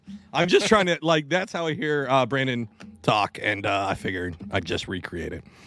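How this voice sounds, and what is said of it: Usual voice. Nothing is said of it.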